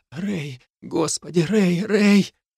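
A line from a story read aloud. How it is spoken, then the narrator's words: Sobbing whisper. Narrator (Russian): всхлипывала и шептала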